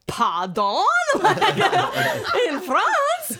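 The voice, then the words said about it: Bad put-on French accent. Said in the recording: “That's a terrible French accent.”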